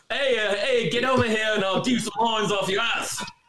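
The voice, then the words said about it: Poor attempt at English accent. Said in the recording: “I can't even do a good English accent”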